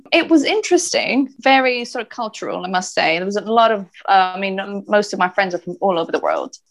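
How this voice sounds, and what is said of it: Mixed accent, sounds Irish/Australian/South African. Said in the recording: “my accent is, as you can tell, a bit different. You know, many people think I might be Irish or Australian or South African.”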